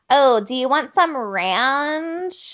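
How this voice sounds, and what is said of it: Exaggerated obnoxious American accent. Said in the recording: “this obnoxious American accent ... when they try to do an American accent ... mimicking them”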